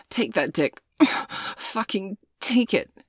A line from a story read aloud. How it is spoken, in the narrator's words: groaned